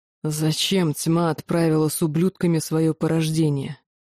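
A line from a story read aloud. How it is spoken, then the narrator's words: Hissing. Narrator (Russian): Лохар прошипел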